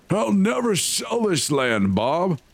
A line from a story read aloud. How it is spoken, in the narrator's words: the old man wheezed